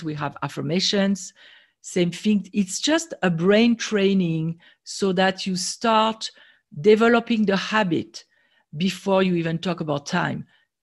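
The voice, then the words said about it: French accent. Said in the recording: “People love the French accent”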